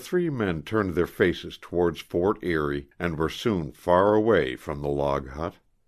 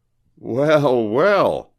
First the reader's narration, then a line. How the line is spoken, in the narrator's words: cried LaRoche, laughing